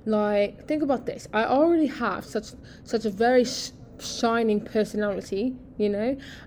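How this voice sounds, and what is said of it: Put-on British accent. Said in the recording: “I would be really bloody cool if I had a British accent ... I've been getting better with my accent.”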